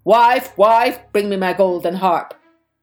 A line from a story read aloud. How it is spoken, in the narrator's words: the ogre called out